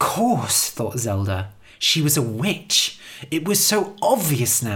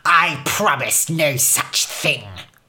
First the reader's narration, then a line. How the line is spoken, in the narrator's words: Her voice was nastier, crueler than ever before